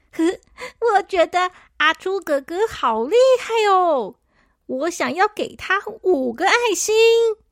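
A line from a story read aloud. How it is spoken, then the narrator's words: Cheerful, smiling. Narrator (Chinese): 小扑笑眯眯的说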